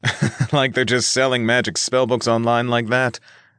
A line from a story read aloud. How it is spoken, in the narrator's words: Nick replied with a laugh